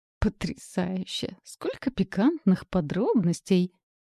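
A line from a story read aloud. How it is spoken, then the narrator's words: Giggling. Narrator (Russian): хихикнула я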